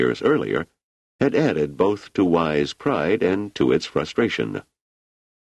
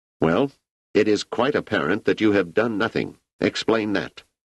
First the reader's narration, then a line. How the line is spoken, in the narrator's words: The leader said sharply